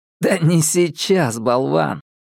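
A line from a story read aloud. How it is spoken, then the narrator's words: Laughing. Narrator (Russian): Ньют засмеялся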